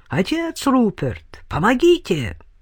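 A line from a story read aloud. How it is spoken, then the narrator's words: Shouted. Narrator (Russian): крикнул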